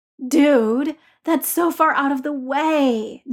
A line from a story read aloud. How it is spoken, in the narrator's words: Ned groaned